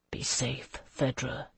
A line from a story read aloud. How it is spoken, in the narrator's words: he murmured